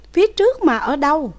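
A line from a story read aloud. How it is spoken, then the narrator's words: Loud urgent question. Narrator (Vietnamese): Đỗ Vân Bằng lớn tiếng hỏi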